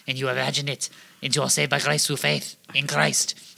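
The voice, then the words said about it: Deliberately bad French accent. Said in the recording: “That sounded like Pepe Le Pew ... a good, bad French accent ... say all of the words like you are a bad Frenchman”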